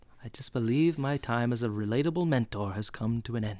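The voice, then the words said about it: Weak imitation of a character's voice. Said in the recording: “That wasn't a very good Feeney accent”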